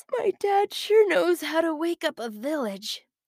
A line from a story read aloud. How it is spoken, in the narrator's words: said with a yawn